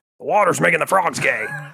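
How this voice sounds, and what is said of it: Alex Jones impression. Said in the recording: “your Alex Jones impersonation”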